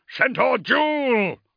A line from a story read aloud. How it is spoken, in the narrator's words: roared Seth